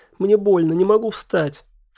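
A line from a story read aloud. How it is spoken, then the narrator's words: Sobbing. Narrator (Russian): всхлипывая, сказала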